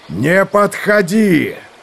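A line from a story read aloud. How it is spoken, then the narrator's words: Furious shout. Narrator (Russian): Яростно закричал Сармак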